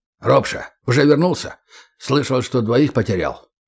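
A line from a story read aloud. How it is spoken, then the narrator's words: Clipped, curt speech. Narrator (Russian): Полетаев говорил отрывисто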